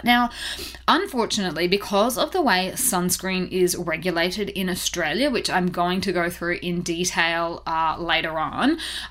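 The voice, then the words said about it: Australian accent. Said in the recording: “I am an Aussie, if you couldn't already tell from my accent.”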